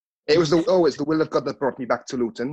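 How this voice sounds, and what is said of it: Poor put-on Welsh accent. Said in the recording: “your Welsh accent there ... it's awful, wasn't it?”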